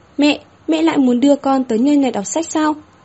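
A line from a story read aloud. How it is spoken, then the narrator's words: Loud demanding question. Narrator (Vietnamese): hai hàng lông mày mờ nhợt, nhăn lên, lớn tiếng chất vấn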